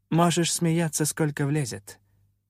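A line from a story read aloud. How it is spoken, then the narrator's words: Surprisingly calm, gloomy. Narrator (Russian): на удивление спокойно, хоть и мрачно отреагировала Инамира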